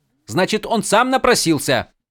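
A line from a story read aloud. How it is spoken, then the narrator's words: Snapped. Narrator (Russian): Огрызнулся Адалин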